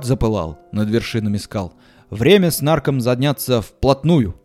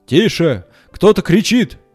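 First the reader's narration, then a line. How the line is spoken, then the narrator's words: Shout. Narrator (Russian): закричал Балабон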